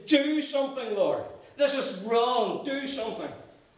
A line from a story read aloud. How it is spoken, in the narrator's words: Prayers from struggling believers who have just cried out in their desperation